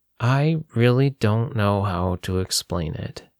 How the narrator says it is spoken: Joe said slowly

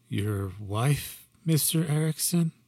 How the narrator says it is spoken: I tried to ask calmly, now visibly shaking

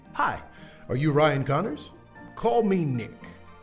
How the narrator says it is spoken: said eagerly

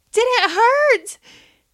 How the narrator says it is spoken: One of the kids shrieked

